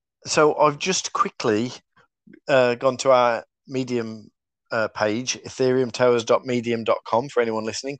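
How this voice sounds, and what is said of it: Black Country English accent. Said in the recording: “my black country accent”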